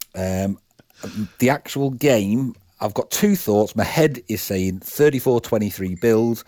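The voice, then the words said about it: Speaks with a distinctive accent. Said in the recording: “Love his accent.”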